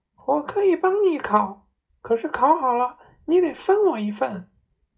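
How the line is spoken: Shrill cry. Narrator (Chinese): 巨鹰又尖声叫道

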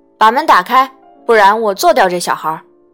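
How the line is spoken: Shouting. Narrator (Chinese): 切片机叫道

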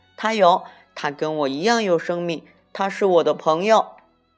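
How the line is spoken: Loud shout. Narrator (Chinese): 小兔大声喊道

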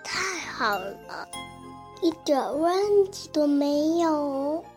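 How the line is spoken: Sighing. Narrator (Chinese): 猪太太叹了一口气

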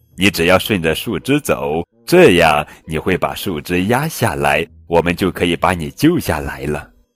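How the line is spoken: Laughing loudly. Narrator (Chinese): 艾玛……大笑

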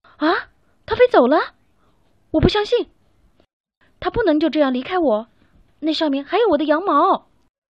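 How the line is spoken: Yelling. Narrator (Chinese): 卡门大叫

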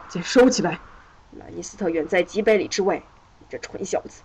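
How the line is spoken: Angry. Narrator (Chinese): 罗德利克爵士怒道

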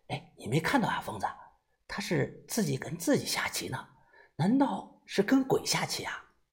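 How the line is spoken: Quiet speech. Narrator (Chinese): 豆芽仔小声的说道

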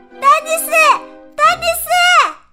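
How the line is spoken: Shouting. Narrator (Chinese): 她大叫道

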